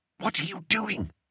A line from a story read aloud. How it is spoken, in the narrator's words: whispered Bert